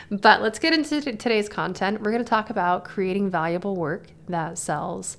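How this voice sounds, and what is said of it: Tired, worn voice. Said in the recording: “my voice is a little bit like tired right now. It's because I just talked for an hour and 45 minutes and my voice is tired”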